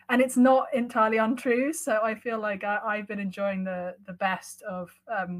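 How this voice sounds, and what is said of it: British accent. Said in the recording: “as a Brit in America ... people warm to me because of my accent”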